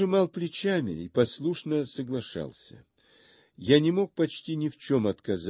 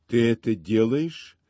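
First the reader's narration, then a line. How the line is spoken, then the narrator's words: Calm. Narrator (Russian): спокойно сказала она мне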